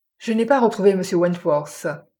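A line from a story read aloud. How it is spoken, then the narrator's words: Sharp voice. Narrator (French): dit Jim d'une voix tranchante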